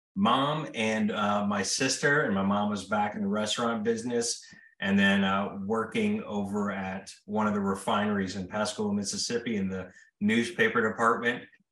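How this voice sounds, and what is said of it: Strong Mississippi Southern accent. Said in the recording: “As you can tell from my accent, it's very strong Mississippian dialect.”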